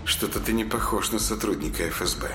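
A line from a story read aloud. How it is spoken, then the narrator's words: Through gritted teeth. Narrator (Russian): сквозь зубы процедила девушка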